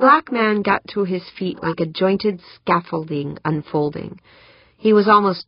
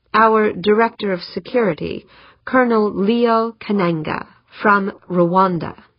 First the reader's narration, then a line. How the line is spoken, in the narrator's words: said Eberly